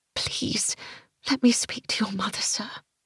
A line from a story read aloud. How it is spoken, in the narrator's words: I whispered through trembling lips